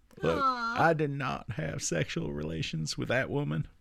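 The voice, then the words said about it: Imitates another person's voice. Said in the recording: “I used to do Bill Clinton.”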